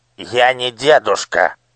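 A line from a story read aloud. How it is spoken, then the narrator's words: Angry snap. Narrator (Russian): сердито огрызнулся прохожий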